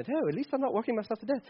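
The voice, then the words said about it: Put-on British accent. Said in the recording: “Maybe you talk like this with a British accent.”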